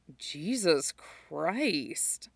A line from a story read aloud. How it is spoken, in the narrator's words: Scott says quietly